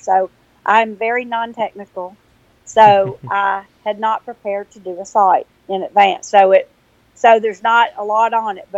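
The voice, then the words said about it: Southern US accent. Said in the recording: “sometimes people can't understand my Southern accent”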